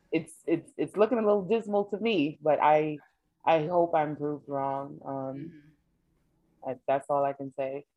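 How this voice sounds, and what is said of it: Sad, subdued voice. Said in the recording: “It's just sad. And you can hear it in my voice.”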